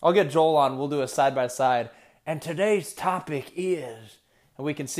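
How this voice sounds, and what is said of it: Usual voice. Nothing is said of it.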